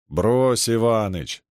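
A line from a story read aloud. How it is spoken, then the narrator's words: Drawled. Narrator (Russian): протянул Воротилин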